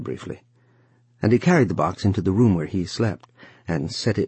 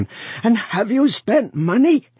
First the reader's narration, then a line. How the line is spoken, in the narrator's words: he cried again